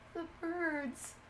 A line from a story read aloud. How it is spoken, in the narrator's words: she whimpered